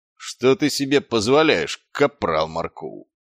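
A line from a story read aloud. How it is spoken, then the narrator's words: Growled. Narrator (Russian): прорычал Квирк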